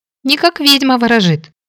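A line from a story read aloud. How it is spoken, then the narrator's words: Squeaky girl's voice. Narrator (Russian): пискнула девушка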